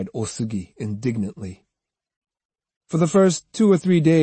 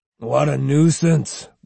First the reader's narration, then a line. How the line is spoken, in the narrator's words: growled Matahachi